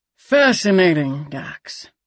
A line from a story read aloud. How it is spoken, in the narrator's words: the captain said dryly